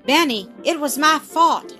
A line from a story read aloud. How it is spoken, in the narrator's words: exclaimed Tom